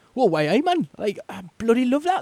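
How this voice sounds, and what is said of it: Put-on Geordie accent. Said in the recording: “a French Revolution with a Geordie accent twist”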